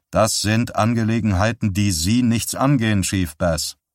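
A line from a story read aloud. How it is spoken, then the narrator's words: Plain. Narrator (German): sagte Lengthy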